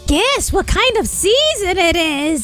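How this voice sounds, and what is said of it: Cackling witch voice. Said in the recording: “It's my witch voice. Did you hear my witch voice?”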